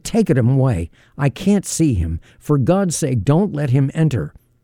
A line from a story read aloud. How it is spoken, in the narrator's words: I cried out in agony